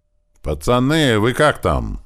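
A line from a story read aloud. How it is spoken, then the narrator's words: Yelled at full volume. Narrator (Russian): заорал я во все горло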